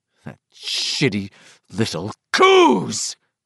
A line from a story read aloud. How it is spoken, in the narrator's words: Tom cried